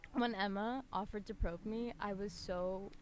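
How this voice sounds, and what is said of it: Emotional, choked-up voice. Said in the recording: “I'm getting emotional, so I'm so sorry.”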